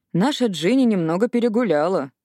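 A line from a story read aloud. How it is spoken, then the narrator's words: Amused hum. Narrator (Russian): хмыкнул Уилл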